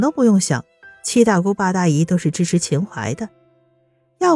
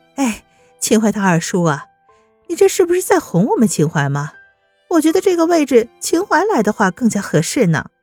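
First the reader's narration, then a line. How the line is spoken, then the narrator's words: Laughing question. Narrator (Chinese): 秦淮笑着对他那些七大姑八大姨问道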